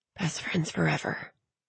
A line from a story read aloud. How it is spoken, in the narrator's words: Tally sighed and whispered